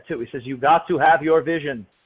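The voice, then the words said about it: Imitated Austrian accent, admittedly poor. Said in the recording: “Sorry, I've never been to Austria. I don't really know the accent that well.”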